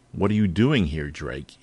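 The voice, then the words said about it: Cold voice. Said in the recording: “asked in a cold voice”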